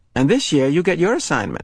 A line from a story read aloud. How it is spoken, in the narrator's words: she said to Jonas in an excited voice